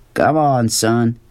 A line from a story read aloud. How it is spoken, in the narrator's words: his father said, his voice hard